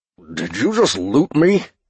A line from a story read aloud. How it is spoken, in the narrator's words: Shaggy asked, and groaned